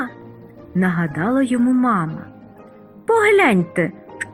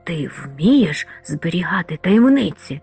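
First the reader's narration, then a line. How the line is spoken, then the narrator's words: Whispered. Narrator (Ukrainian): зашепотів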